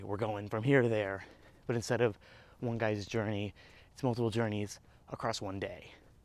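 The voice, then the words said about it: Out of breath while talking. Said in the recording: “I'm getting out of breath. ... Don't try and talk while you walk.”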